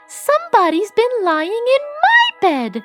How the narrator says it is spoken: squeaked the baby bear

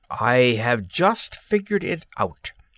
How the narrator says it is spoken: he exclaimed

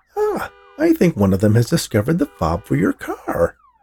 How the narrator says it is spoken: Max exclaimed

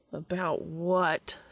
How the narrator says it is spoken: someone grumbled

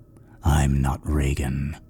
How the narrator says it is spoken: she rumbled, still with the hideous grin

